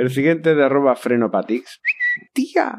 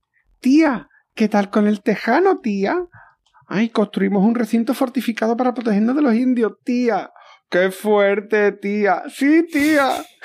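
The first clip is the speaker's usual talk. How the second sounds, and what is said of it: Put-on character voice. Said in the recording (Spanish): “poner la voz”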